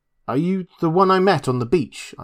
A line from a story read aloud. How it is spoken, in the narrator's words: I asked